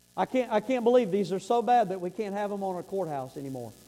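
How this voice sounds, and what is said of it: Sarcastic tone. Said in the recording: “that was sarcasm, rolling eyes”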